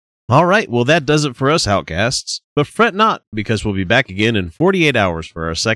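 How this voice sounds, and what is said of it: Usual voice. Nothing is said of it.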